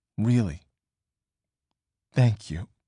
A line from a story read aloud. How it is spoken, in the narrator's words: May said, her voice quaking